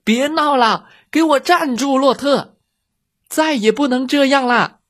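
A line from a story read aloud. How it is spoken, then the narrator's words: Exasperated woman yelling. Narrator (Chinese): 农场主太太看到洛特又把快递员吓跑了，大叫起来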